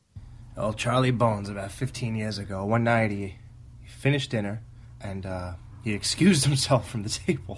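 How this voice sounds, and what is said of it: Attempted New York-Boston accent. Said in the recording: “was that your Boston accent I heard? ... was that your attempt at a New York-Boston accent?”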